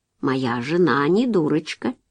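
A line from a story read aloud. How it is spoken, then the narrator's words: Gentle objection. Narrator (Russian): мягко возразил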